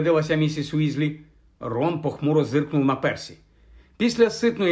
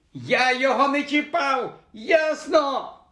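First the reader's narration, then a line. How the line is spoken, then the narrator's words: Shrieking back. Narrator (Ukrainian): верещав у відповідь йому Рон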